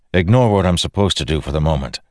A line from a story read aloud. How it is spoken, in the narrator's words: Dalinar said